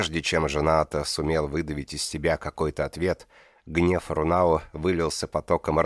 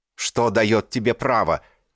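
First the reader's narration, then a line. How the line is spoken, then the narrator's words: Shouted. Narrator (Russian): крикнул Кончай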